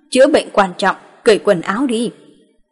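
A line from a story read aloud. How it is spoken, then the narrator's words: Soft chuckle. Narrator (Vietnamese): Ngô Tuấn khẽ cười một tiếng, nói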